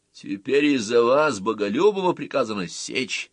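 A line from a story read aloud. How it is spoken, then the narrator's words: Loud announcement, prison warden. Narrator (Russian): объявил громко начальник тюрьмы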